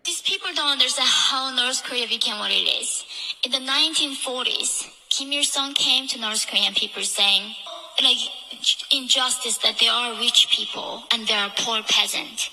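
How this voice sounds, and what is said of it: Thick accent. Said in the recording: “she has a thick accent and dialect, but give it a listen. If you have to go back and listen to it twice, do it”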